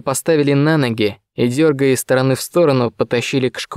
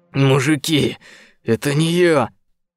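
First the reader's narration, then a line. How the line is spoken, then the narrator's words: Hoarse rasp. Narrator (Russian): прохрипел Морозов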